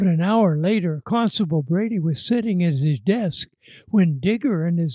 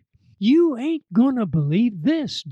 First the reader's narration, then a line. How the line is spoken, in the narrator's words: Digger yelled